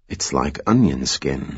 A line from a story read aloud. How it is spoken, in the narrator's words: he muttered